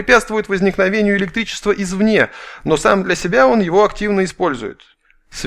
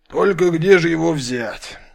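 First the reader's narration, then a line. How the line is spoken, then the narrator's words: Bear sighing. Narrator (Russian): вздохнул медведь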